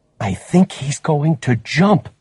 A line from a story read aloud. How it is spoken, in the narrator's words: Valdez whispered